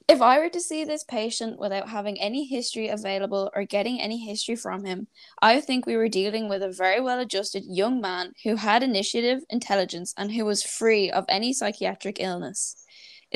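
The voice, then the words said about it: Formal professional reading voice. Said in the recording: “put on my best professional voice.”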